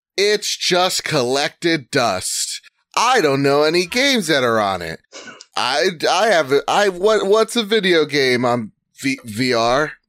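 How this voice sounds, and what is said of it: Imitates another person's voice. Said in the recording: “my best McCaffrey impersonation.”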